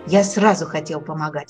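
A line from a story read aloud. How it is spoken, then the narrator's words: Exclaimed. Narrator (Russian): воскликнул Фиолетик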